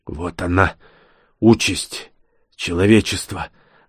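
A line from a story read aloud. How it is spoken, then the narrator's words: Breathless wheeze. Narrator (Russian): задыхаясь, прохрипел он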